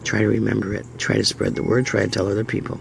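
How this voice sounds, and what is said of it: Hoarse, failing voice. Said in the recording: “I'm losing my voice again from talking so much”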